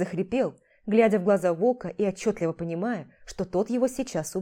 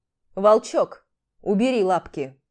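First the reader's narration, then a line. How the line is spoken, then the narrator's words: Calm low hum. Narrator (Russian): Все так же мирно прогудел Карс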